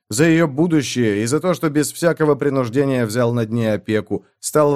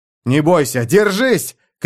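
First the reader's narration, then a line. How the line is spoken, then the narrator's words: Shouting. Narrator (Russian): крикнул я Элфи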